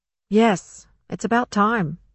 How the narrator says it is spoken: Mabel said

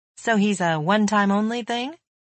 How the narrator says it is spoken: joined her laughter

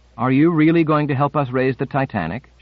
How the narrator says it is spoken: asked

